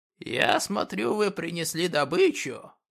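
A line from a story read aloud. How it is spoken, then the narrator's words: Old man wheezing. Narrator (Russian): прохрипел старик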